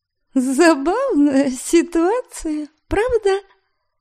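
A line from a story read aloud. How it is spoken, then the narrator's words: Silly giggle. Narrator (Russian): Глупо хихикнула я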